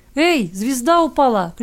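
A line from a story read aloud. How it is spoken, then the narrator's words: Child shouting. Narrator (Russian): крикнул однажды кто-то из ребятишек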